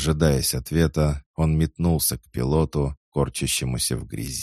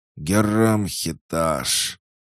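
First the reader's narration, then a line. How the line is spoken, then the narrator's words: Hoarse dying gasp, drowned out. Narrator (Russian): Сиплый вздох умирающего ганианца потонул в звуках шквального огня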